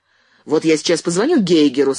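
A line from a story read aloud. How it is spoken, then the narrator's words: Angry. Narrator (Russian): сказал Андрей зло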